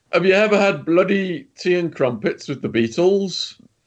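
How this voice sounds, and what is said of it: Fake British accent. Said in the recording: “in a fake British accent”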